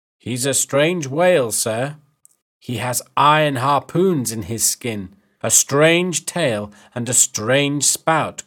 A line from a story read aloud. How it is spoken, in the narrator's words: Queequeg said